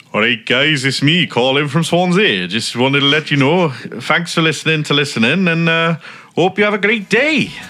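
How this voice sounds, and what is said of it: Put-on Welsh accent. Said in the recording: “do your best Welsh accent.”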